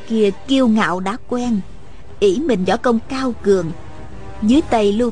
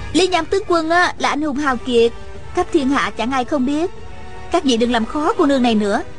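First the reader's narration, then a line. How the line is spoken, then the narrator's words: Smiling. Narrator (Vietnamese): Nàng mỉm cười lên tiếng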